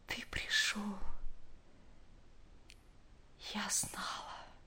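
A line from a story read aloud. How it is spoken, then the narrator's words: Very quiet. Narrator (Russian): очень тихо промолвила она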